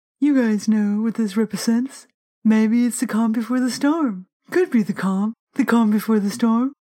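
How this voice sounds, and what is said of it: Impression of Donald Trump's voice. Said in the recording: “do the voice. ... Come on, Trump's voice.”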